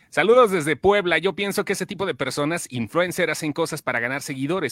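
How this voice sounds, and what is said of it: Announcer-style radio voice. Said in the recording (Spanish): “voz de locutor”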